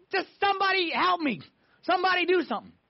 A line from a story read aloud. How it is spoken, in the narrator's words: We're just screaming, saying